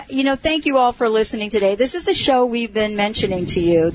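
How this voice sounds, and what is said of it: New York accent. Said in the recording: “I have my New York accent back”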